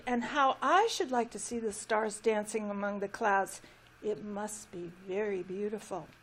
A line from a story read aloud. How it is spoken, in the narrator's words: sighed the little tree